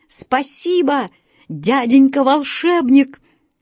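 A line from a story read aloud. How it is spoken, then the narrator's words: Shouted thanks. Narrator (Russian): закричал Вася Вертушинкин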